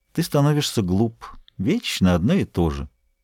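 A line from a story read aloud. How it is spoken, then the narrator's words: Contemptuous whisper. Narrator (Russian): Она прошептала пренебрежительно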